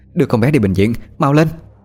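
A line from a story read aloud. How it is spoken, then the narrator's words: Calm but shouting. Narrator (Vietnamese): Bà Tú giữ được bình tĩnh mà hét lên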